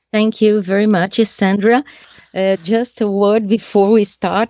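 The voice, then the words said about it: Non-native Portuguese-accented English. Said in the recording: “I would like to apologize for my mistakes in English, for the accent ... I don't speak Portuguese”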